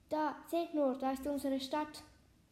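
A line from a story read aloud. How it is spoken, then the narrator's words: Calling out, breaking silence. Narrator (German): Lina brach das Schweigen, indem sie rief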